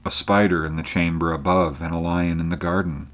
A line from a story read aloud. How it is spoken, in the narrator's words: muttered Conan